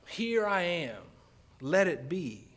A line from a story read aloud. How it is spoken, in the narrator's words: she said